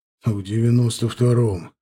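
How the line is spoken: Snort. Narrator (Russian): хмыкнул Женя

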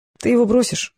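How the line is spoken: Sad, smiling. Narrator (Russian): грустно улыбнулся Волков

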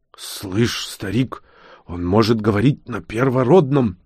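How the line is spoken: Growling orc. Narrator (Russian): прорычал орк

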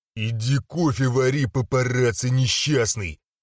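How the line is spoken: Growl while spitting. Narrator (Russian): рыкнул я, отплевываясь

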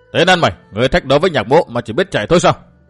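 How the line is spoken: Frustrated angry shout. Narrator (Vietnamese): Nhạc Bất Hối đuổi theo phía sau mà không sao tập kích được đối thủ, bực bội quát

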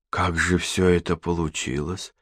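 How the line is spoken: Hoarse voice. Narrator (Russian): хриплым голосом произнесла Катерина

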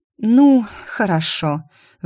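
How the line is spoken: Sighing. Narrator (Russian): вздохнула Мелани

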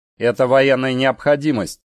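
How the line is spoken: Angry interruption. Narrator (Russian): сердито перебил майор

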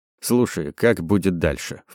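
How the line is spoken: Hushed undertone. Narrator (Russian): вполголоса сказал

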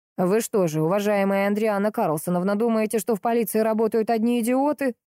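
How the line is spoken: Hostile growl. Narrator (Russian): недружелюбно прорычал полковник

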